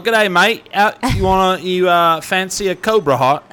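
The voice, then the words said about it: Put-on Australian-style accent. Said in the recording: “I don't know what accent that was ... That was pretty good”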